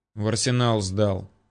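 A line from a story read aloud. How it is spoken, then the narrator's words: Grumbled. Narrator (Russian): буркнул Ермолов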